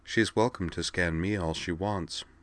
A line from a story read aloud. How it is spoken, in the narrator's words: said